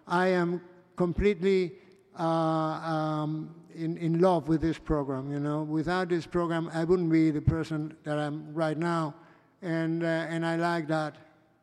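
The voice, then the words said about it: Non-native English accent. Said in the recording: “my poor English or my rich English, whatever, my accent”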